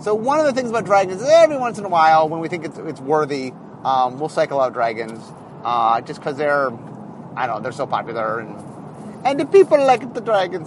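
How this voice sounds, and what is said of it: Put-on Italian accent. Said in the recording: “the Italian accent”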